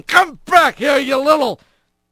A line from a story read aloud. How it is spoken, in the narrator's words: Bobcat shouting